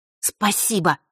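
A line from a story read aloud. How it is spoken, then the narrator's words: Angry mutter. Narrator (Russian): буркнула та, еще разозленная перепалкой с Фэшем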